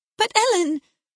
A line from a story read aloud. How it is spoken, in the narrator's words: cried